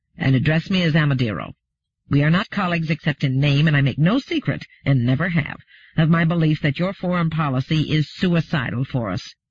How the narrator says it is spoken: said Amadeiro in a clearly annoyed and low-pitched growl

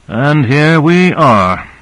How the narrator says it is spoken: said Owens, sighing audibly

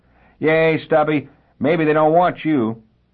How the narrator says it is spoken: George shouted back over his shoulder as he left

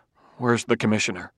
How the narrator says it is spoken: he mumbled, hot with mortification

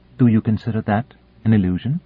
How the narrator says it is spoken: Kalinin asked

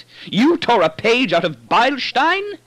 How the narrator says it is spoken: He shrieked it

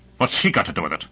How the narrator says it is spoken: he said harshly

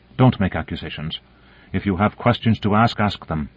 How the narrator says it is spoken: said Voronova sharply

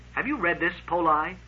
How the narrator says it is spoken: He said stiffly

